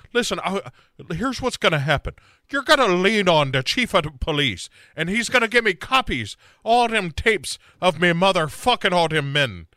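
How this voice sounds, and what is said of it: Put-on Irish accent. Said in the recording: “You cannot say in an Irish accent”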